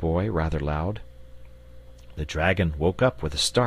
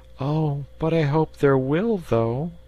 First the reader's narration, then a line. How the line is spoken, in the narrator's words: replied the little fellow wistfully